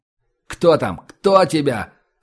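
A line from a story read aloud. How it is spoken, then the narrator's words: Shout. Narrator (Russian): закричал Влад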